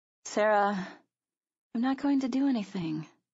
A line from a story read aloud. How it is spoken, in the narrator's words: I promised feebly